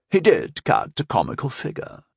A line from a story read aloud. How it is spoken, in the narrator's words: added Lady Christine with a bitter chuckle